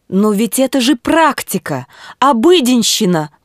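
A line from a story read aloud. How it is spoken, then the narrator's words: Exclamation. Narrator (Russian): воскликнул доктор Гаммерфильд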